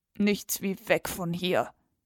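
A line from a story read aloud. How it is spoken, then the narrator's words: Murmur. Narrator (German): murmelte er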